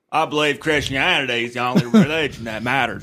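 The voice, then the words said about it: Put-on Southern-style character voice. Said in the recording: “I think we should give him a voice ... Forrest Gump is what he sounds like from Virginia.”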